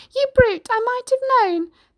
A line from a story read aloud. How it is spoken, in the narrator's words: Pig cried